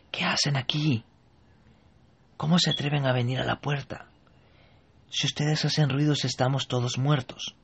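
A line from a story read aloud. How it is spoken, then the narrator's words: Frightened whisper. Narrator (Spanish): con gran miedo comienza a decirles en voz baja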